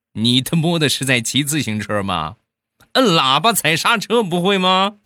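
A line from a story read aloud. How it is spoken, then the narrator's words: Coach shouting loudly. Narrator (Chinese): 教练大声的喊道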